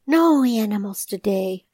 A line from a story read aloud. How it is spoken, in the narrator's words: he sighs